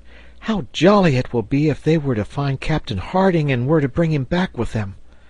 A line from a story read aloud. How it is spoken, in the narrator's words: exclaimed Herbert